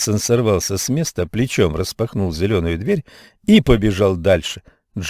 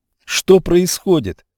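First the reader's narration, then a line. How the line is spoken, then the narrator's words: Boy shouting. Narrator (Russian): закричал мальчик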